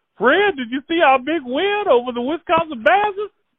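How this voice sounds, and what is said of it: Impression of Grady. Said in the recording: “your Grady impersonation ... He looks like Grady from San Francisco.”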